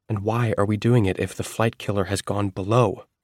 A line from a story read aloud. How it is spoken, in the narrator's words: There was a croak from thin air, almost a word